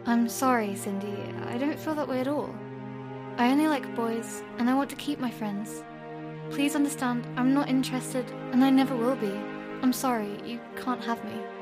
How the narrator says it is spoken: I felt disgusted and angry at this, but I let out a sigh and explained calmly

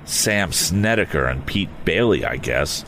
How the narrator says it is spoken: he murmured

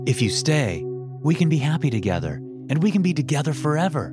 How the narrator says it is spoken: Vincent said excitedly

